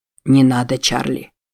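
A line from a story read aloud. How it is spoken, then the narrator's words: Quiet. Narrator (Russian): тихо произнес Джексон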